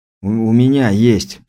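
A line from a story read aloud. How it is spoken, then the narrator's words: Hoarse rasp. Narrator (Russian): прохрипел я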